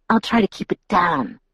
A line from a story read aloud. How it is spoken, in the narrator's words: Jacob whispered sarcastically